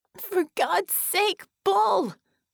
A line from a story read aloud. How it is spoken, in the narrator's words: Bella screamed